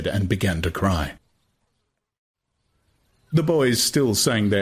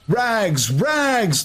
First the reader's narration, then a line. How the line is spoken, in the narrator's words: the boys used to shout at him